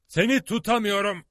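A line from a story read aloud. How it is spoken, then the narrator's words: Shouted. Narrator (Turkish): diye bağırdı Lord John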